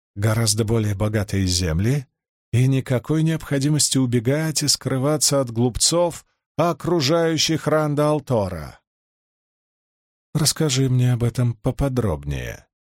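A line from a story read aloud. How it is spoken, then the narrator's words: Calm. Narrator (Russian): спокойно произнесла Сиванна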